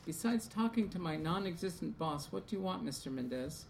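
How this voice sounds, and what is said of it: Flat, toneless delivery. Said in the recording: “in a flat voice”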